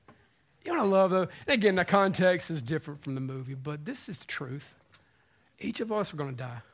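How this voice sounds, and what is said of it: Usual voice. Nothing is said of it.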